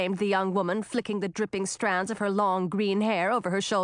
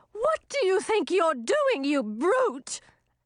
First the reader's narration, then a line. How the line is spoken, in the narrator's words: the body jumped to its feet and shouted